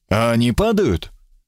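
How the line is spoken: Sighing. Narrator (Russian): вздохнул

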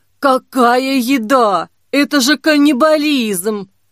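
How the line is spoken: Hoarse rasp. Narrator (Russian): прохрипела Дамба

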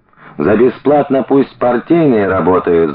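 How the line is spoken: Someone yelling. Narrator (Russian): заорал кто-то

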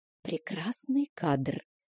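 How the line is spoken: Conspiratorial whisper. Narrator (Russian): заговорщицки шепнула мне Стеси

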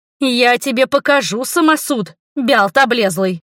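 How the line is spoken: Barked angrily. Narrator (Russian): рявкнула я

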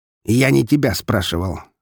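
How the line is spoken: Snapped. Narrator (Russian): огрызнулся барон

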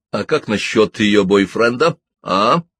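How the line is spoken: Rough question. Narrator (Russian): грубо спросил Ребус

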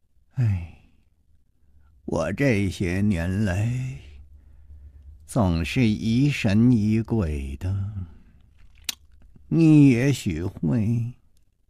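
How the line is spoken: Dazed, long sigh. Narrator (Chinese): 他……呆呆地出了一会儿神，才长叹了一声说

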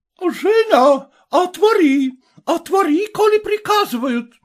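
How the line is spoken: Shouting woman. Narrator (Russian): кричала хозяйка

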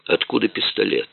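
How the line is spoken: Dejected question. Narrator (Russian): упавшим голосом спросил комиссар

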